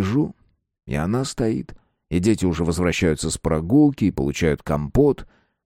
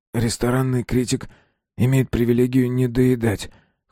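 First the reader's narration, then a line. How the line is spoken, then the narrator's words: Hoarse. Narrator (Russian): хрипло сказал я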